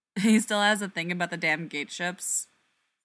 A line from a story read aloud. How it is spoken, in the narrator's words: Ford laughs